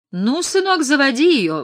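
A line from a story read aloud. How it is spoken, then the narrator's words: Exclaiming. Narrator (Russian): воскликнул он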